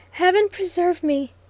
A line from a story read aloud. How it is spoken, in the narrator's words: gasped Stanton